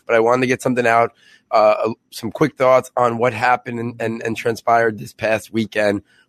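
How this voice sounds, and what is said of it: Voice sounds a bit sick. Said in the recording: “I am a little bit under the weather, so you might hear that in my voice.”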